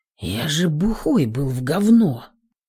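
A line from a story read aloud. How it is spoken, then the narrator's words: Confused mutter. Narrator (Russian): Пробормотал, не понимая, что и чувствую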